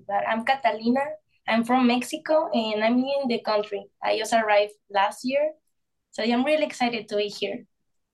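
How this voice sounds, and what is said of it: Mexican accent in English. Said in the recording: “Your accent is so beautiful.”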